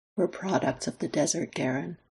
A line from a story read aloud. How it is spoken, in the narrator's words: Lex tells him gently